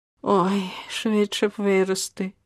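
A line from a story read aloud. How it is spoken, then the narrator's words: Child's sigh. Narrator (Ukrainian): зітхнув малюк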